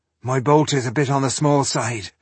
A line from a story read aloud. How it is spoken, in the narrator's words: he sighed